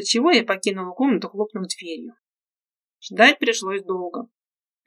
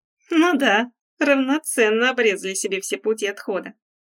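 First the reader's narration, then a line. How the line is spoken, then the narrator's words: Cheerful snort. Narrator (Russian): фыркнул я весело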